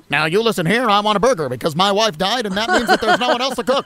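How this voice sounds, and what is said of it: Old-movie gangster-style voice. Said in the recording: “I like doing that voice. I like that voice. ... talk like that, like gangsters or something”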